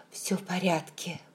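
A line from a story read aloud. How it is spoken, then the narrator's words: Whisper. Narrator (Russian): прошептал он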